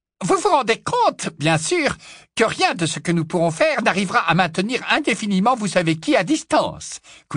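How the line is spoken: Squeaking professor. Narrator (French): couina le professeur Flitwick

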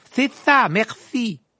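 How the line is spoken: Shouted over shoulder. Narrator (French): lui cria Ron par-dessus son épaule

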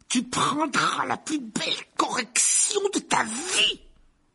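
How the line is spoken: Roared. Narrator (French): rugit l'oncle Vernon

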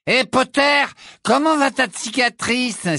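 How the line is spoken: Exclaiming. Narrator (French): s'écria Malfoy

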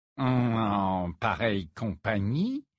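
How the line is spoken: Mocking repetition. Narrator (French): répéta Rogue d'un ton railleur

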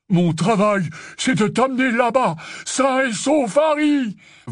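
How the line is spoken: Bellowed. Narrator (French): vociféra Hagrid

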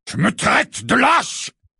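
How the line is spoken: Roaring. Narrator (French): rugit Sirius

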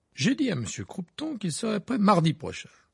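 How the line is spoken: Smug explanation. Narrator (French): expliquait Percy d'un ton suffisant

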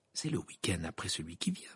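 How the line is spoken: Murmuring. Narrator (French): murmura Hermione

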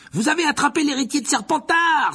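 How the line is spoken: Exclaimed, schoolgirl. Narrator (French): s'écria une élève de Serdaigle

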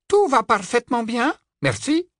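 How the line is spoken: Clear, crisp. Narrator (French): répondit Lupin d'un ton clair et net

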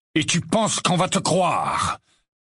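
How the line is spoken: Booming voice. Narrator (French): tonna une voix derrière Harry

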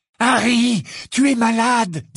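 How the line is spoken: Trembling voice. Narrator (French): dit d'une voix tremblante

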